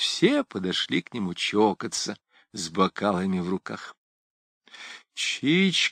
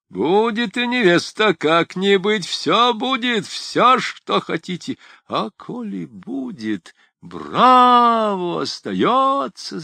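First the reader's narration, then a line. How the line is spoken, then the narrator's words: Crowd shouting. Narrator (Russian): закричали все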